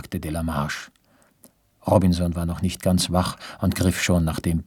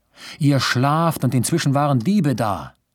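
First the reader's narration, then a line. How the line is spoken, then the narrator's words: Man calling out. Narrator (German): rief er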